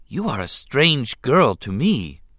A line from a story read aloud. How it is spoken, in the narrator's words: he said instead